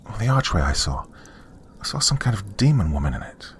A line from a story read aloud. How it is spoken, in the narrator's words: muttered as I blushed from embarrassment